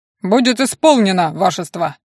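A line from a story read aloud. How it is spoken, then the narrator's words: Booming shout. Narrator (Russian): крикнул, как залп дал Карбин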